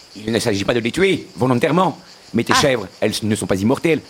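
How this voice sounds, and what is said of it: Put-on regional accent. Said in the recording (French): “cet accent, je n'en peux plus. Il me tape sur le système. Je ne sais pas pourquoi on a cet accent.”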